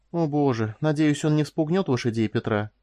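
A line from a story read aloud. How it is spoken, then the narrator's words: Sighing. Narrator (Russian): вздохнула Корделия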